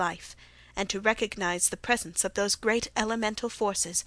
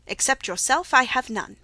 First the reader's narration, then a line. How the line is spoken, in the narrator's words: he answered